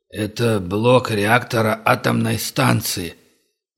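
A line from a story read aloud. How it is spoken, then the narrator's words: Hoarse strained voice from behind. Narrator (Russian): раздался за спиной Хантера хриплый, сдавленный голос Глеба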